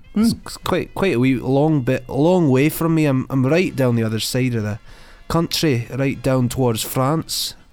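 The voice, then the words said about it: Bad put-on Scottish accent. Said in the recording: “the patronising Scottish accent ... Terrible, terrible accent.”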